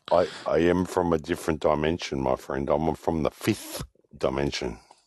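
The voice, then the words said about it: Alien-like character voice. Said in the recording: “you sound like an alien ... the voice, man. The voice sounds like an alien.”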